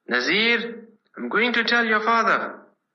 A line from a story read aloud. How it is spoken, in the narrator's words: He was so angry he shouted